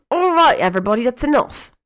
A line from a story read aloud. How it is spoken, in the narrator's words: Ginny shouted, sounding eerily like Molly Weasley